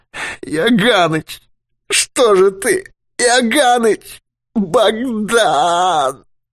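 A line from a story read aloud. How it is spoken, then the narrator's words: Moan. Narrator (Russian): Юрковский застонал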